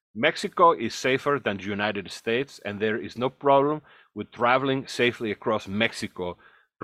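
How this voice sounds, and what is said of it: Put-on accent. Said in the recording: “I'm going to use an accent for this one”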